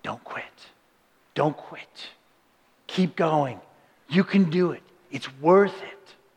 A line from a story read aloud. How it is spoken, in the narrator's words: they whisper to you